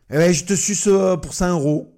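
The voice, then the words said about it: Put-on Toulouse accent. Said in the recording (French): “Là, il y a l'accent toulousain. C'est la pute avec l'accent toulousain”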